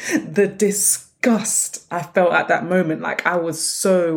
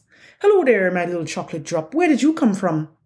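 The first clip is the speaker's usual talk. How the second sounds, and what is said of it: Attempted heavy Irish accent. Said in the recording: “In the heaviest, of Irish accents ... I can't do an Irish accent,”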